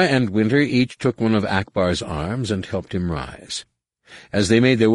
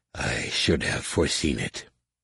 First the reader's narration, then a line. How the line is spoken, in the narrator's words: he mumbled